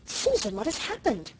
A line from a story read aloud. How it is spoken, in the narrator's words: cried Mrs